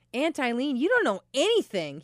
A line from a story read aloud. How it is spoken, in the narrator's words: exclaimed